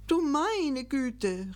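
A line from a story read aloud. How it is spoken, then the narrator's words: Calling out. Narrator (German): rief Gickelgei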